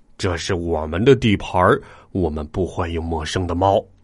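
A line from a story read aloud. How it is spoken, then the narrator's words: Growling cat. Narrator (Chinese): 一只脏兮兮的灰猫咆哮道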